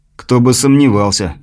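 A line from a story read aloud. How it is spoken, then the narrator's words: Snorting. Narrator (Russian): хмыкнул грешник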